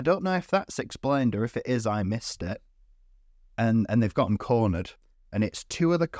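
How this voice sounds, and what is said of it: Usual voice. Nothing is said of it.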